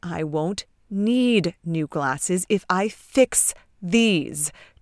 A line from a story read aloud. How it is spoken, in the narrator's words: Trent hisses